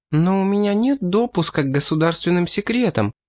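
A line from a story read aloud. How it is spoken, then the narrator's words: Hesitant young woman. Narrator (Russian): неуверенно заметила девушка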